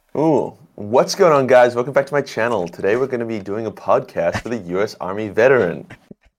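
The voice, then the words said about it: YouTuber intro voice. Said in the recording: “do the YouTube voice ... That was a good, that was a good YouTube voice.”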